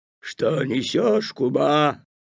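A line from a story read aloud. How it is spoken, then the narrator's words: Growling wolf. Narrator (Russian): зарычал волк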